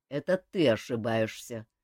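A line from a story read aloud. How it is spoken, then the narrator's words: Cold interruption. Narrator (Russian): Холодно перебил его Кантор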